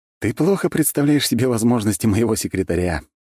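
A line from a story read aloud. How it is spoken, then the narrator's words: Laughing. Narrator (Russian): рассмеялся я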